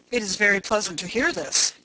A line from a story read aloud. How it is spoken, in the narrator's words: he said